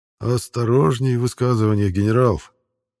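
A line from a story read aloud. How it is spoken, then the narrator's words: Quiet warning. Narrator (Russian): негромко предостерег Крайтон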